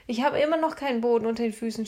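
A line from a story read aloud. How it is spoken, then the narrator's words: Shouted. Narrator (German): schrie er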